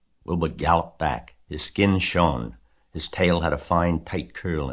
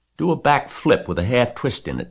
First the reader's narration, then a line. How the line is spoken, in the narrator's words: cried Charlotte